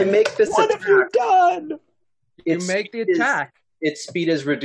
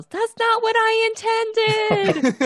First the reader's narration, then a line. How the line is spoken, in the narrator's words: Winley yells